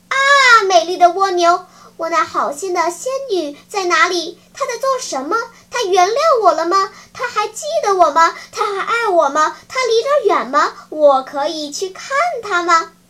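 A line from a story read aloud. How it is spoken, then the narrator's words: Rapid-fire breathless questions. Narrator (Chinese): 匹诺曹像开连珠炮似的，一口气说出了一连串的问话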